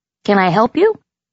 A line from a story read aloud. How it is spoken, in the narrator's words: Theo asked me brightly, his voice cracking with puberty